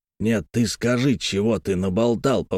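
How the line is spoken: Menacing repetition. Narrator (Russian): повторил грозно Испольнов

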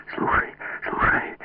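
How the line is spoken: Whispered. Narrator (Russian): прошептал

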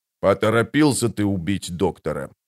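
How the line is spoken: Grumbling. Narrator (Russian): пробурчал барон

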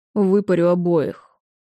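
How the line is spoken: Grim threat. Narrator (Russian): мрачно пригрозил Уинферн

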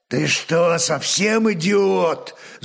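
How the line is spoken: Old man growling. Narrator (Russian): зарычал старый викинг

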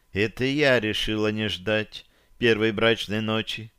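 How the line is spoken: Very quiet speech. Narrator (Russian): совсем тихо проговорила Таша

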